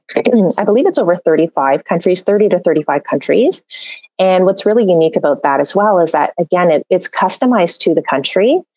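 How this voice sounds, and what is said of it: Strained, hoarse, fading voice. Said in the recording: “I'm losing my voice.”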